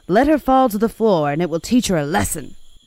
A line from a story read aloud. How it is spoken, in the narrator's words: the nurses roughly said